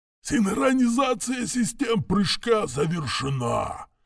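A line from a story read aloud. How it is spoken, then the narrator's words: Hoarse rasp. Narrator (Russian): прохрипел штурман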